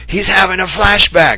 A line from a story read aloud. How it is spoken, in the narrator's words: shout to Gary